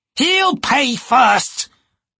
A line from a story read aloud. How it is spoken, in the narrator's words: Hairlock shrieked